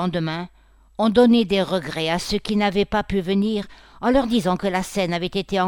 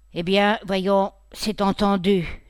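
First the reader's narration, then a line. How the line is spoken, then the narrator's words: Plain. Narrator (French): dit M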